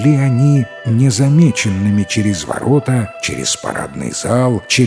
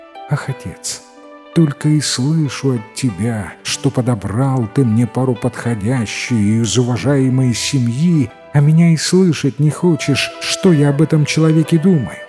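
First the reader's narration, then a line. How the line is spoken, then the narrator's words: Sighing, to herself. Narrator (Russian): Вздохнула тут девушка и говорит сама себе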